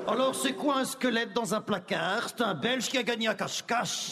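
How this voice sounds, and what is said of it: Put-on Belgian French accent. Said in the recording (French): “pourquoi les dis-tu avec l'accent belge”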